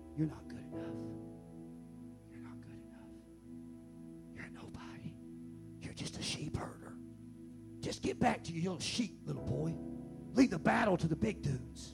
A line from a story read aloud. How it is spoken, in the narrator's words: his own brother his own family started whispering in his ear